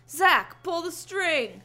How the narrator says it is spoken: I shouted

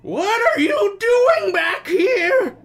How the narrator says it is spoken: He bellowed

